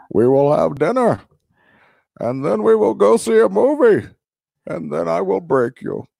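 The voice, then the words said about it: Bane villain character voice. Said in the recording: “your Bane impersonation ... in a Bane voice”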